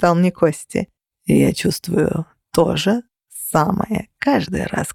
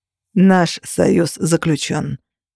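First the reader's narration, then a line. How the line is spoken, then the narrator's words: Formal tone. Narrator (Russian): официальным тоном произнес Минчарос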